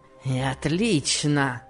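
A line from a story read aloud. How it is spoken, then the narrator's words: Grumbling with fierce grin. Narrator (Russian): проворчал он, зверски усмехаясь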